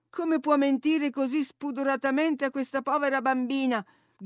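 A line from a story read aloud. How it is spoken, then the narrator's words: Shouting from inside. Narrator (Italian): gridai da dentro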